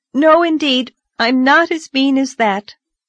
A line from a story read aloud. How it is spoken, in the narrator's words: exclaimed Anne